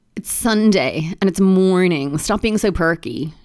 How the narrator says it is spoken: groaned

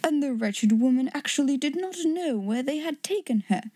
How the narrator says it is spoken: exclaimed Mr

